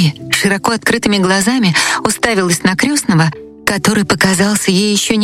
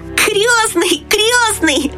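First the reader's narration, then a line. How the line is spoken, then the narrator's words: Shout. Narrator (Russian): закричал он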